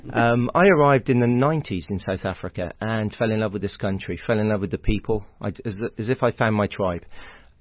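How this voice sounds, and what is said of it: British accent. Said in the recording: “despite the accent ... I'm from the UK originally. I'm from a little village in Somerset in the West Country”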